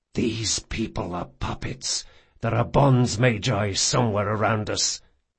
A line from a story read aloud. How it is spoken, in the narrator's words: he hissed